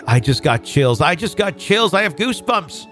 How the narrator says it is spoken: my mom frantically blurted

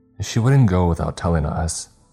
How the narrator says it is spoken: Johnny replied, his voice wrought with concern

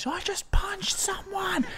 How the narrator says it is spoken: he just said, screamed into my face

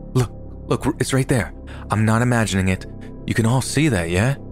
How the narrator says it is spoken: The same guy interrupts, only far more urgently this time, saying

